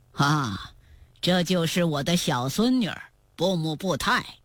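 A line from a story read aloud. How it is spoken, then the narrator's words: Said with a smile. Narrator (Chinese): 芒古斯笑着对皇太极说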